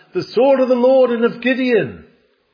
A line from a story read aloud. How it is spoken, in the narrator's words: He and his few heroes stood and shouted